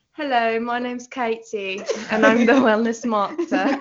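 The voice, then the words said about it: Put-on Southern English accent. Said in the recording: “Do your English accent impression ... Everyone in Canada only knows how to do a Southern English accent”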